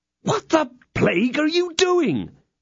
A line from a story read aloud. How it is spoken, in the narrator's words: cried D'Artagnan